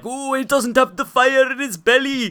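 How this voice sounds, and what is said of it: Exaggerated put-on Welsh accent. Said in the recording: “that bad accent just there... my best impression yet”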